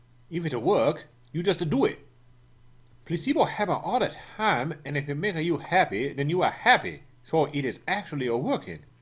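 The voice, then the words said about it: Non-native English accent. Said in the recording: “It was hard to understand ... his accent ... my accent”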